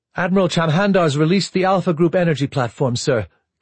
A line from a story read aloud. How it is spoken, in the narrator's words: Commander Hale called out